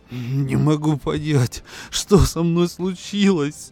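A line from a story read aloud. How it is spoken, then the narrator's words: Sobbing. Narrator (Russian): Всхлипывал он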